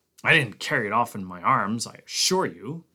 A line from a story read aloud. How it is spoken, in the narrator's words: Conant snapped